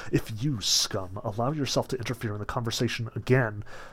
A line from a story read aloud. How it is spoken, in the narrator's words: Margarita, without ceasing to smile … whispered to him